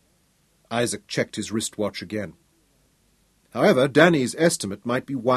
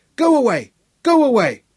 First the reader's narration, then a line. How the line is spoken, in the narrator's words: in a harsh screech